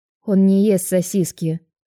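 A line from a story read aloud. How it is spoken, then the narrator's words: Irritated reply. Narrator (Russian): раздраженно отвечаю я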